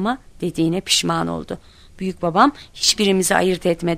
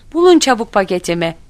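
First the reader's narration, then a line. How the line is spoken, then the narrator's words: Shouting. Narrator (Turkish): diye bağırıyordu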